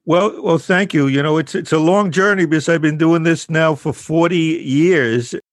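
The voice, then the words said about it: New York accent. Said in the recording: “I hear the New York accent”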